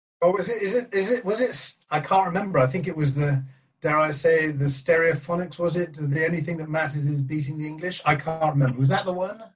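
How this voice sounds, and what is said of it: South Welsh accent. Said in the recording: “a fellow Welshman with a lovely South Walian accent”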